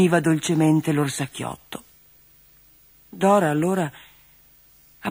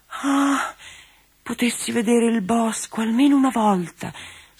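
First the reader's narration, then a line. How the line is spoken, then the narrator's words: Sighing. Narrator (Italian): sospirava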